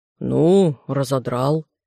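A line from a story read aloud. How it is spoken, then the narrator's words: Grumble over shoulder. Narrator (Russian): охотник пробурчал через плечо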